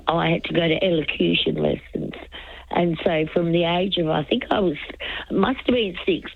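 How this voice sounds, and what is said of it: Unusual accent, lovely voice. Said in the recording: “that's why I've got this unusual accent ... Oh, you have a lovely voice”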